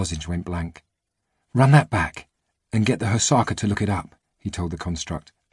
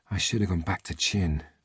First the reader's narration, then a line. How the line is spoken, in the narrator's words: she muttered